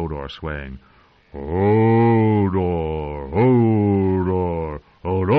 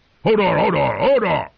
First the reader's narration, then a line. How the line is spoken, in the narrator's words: He shouted